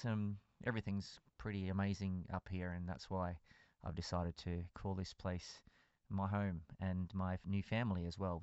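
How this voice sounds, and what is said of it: Australian accent. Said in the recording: “I have an Australian accent.”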